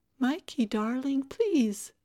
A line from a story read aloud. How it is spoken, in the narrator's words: Tara, who was pleading in a little girl voice